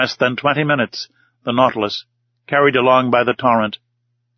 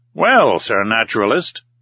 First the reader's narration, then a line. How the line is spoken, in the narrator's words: said the Canadian in a slightly jovial tone